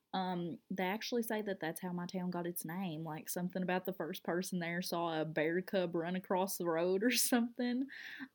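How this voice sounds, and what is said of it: South Central Kentucky accent. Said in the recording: “you're listening to my accent and you're like, where the heck is she from? So I'm from a small town in South Central Kentucky.”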